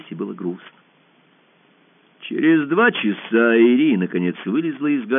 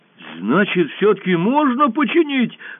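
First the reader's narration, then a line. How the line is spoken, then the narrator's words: Joyful question. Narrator (Russian): радостно спросил Пашка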